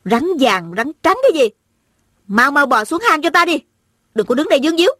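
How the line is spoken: Hot-tempered woman, loud cursing. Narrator (Vietnamese): Tính tình lại nóng nảy, ả bèn lớn tiếng thóa mạ

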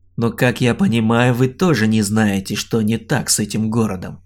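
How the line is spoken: Wry snort. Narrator (Russian): хмыкнул Олег

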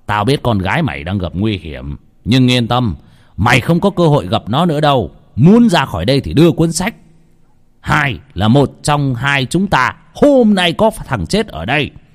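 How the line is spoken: Loud laughing. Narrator (Vietnamese): Lão Mo cười to

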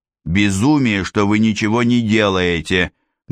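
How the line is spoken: Rude reply. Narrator (Russian): грубо ответил Шварценау

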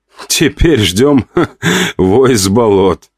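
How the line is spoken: Laughing. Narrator (Russian): хохотал я

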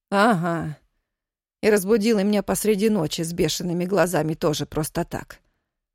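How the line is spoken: Calm remark. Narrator (Russian): спокойно заметила тетя Варя

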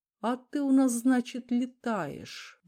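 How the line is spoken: Sigh. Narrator (Russian): вздохнул Дронго

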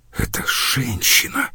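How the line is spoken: Whispered. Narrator (Russian): прошептал Лауриен

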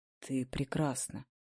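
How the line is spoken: Husky male voice. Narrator (Russian): Его хрипловатый голос

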